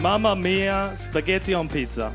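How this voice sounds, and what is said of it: Poor put-on Italian accent. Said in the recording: “my impression of Italians ... Honestly, equally as bad. That was terrible. ... I don't really have a refined Italian accent”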